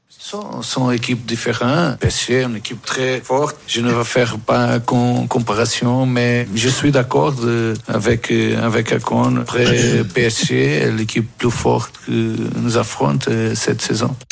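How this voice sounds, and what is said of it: Strong foreign accent in French. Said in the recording (French): “il y a un accent assez important”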